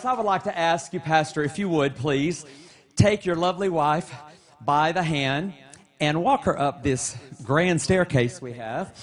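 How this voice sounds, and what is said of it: Very loud announcing voice. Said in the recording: “in my very loud voice”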